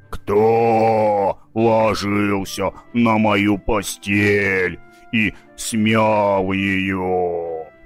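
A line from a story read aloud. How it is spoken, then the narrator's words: Softer growl. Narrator (Russian): зарычала Настасья Петровна не так громко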